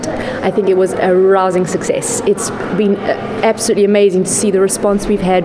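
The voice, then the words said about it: South African accent. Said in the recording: “from South Africa originally. You may tell from my accent.”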